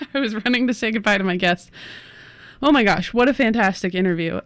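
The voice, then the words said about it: Breathless, out-of-breath speech. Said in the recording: “Sorry, I'm a little out of breath... Oh God, I'm really out of breath.”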